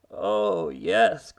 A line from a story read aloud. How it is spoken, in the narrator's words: groaned Mr